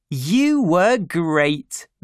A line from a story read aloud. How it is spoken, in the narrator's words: they said